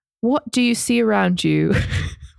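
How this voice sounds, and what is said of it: British accent impression of podcast host. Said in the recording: “in his British accent ... That's actually a really good impression of him.”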